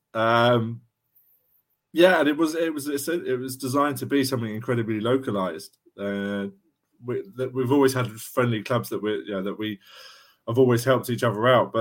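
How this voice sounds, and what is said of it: South London accent. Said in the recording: “I'm based in South London, and as you can tell by my accent compared to you guys”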